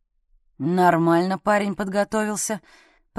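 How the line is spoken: Muttered. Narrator (Russian): пробормотал Дятлов

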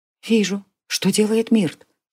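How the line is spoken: Whispered question, young woman. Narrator (Russian): тоже шепотом спросила девушка

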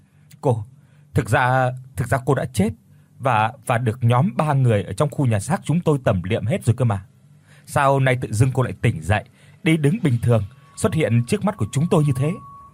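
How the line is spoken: Stammering question. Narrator (Vietnamese): lắp bắp hỏi

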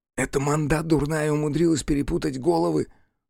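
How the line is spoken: Blurted whisper. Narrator (Russian): шепотом ляпнул кто-то

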